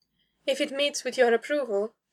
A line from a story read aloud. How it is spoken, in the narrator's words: she said, forcing her tone to remain light despite the tumult rippling between them